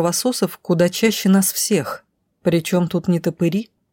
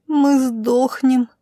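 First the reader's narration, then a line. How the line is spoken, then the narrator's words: Moaning. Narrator (Russian): простонала Милена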